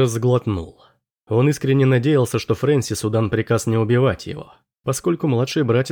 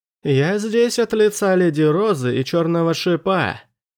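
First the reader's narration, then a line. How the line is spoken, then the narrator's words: Shouting. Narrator (Russian): прокричал Андерс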